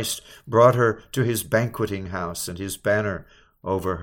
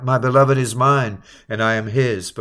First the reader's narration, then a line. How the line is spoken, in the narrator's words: the spouse cried out